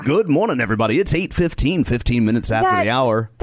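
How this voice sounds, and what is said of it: Fake radio announcer voice. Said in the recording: “the fake radio guy ... That's a fake radio voice.”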